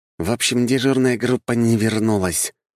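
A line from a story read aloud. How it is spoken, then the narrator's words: Through gritted teeth. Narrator (Russian): сквозь зубы процедил Макс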